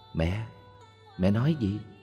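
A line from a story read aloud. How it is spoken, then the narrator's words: Soft question. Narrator (Vietnamese): Con bà hỏi khẽ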